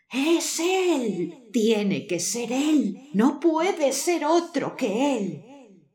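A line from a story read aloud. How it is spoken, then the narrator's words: Crowd exclaiming. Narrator (Spanish): el pueblo exclama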